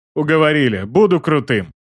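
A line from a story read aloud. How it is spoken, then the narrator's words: Snorting. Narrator (Russian): Фыркнул маг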